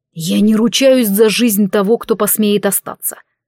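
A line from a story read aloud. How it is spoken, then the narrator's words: Chest-deep growl. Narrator (Russian): вырвалось у меня с грудным рычанием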